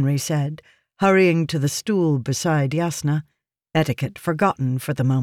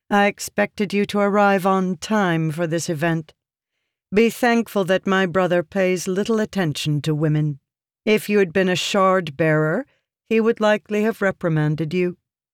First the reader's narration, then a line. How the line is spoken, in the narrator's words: Yasna said flatly